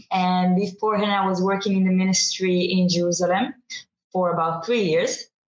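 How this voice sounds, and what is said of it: Non-British foreign accent. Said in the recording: “You can hear I don't have the British accent, not yet.”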